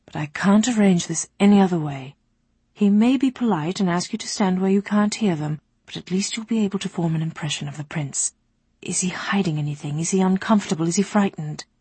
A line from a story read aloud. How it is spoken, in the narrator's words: Winamin sighed